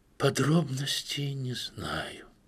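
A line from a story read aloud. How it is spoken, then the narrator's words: Aunt, quiet. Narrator (Russian): тихо ответила тетя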